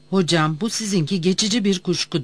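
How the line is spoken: Plain. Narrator (Turkish): dedi

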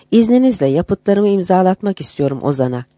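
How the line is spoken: Plain. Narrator (Turkish): dedi

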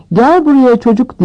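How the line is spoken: Shouted. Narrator (Turkish): diye bağırdı Madame Hooch

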